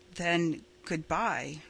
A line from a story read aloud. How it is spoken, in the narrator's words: said Roy